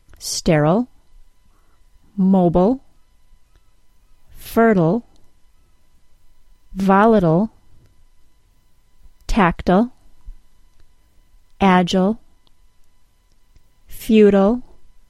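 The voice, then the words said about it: American accent pronunciation. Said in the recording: “in my American accent only”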